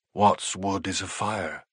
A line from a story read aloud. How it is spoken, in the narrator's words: he said in a hushed voice